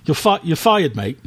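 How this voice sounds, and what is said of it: Poor put-on British accent. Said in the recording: “I apologize wholeheartedly to all of our faithful listeners in the United Kingdom for ... accent.”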